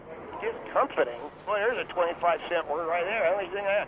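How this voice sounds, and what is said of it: Unusual Baltimore accent, hard to understand. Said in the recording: “You speak in a very, very unusual way. It's very difficult to understand. ... You have a Baltimore accent. ... it's very discomforting to listen to.”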